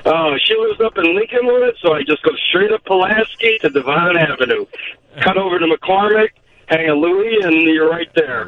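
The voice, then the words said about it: Chicago accent. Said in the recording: “they used to make fun of the way I talk ... I don't have an accent. You call it an accent. ... a longtime Chicagoan”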